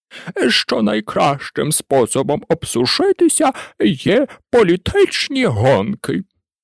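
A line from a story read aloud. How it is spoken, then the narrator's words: Offended turkey voice. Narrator (Ukrainian): промовив індик ображеним голосом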